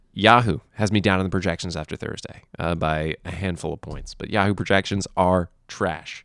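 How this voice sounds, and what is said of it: Stuffy, congested voice. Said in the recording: “recovering from COVID right now. You can hear it in my voice. I'm a little stuffy.”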